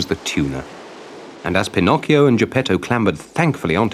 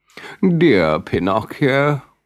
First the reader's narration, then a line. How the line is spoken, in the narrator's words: whined the fox